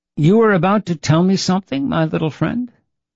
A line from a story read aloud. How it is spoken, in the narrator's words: The conjurer chuckled softly at his own thoughts and then asked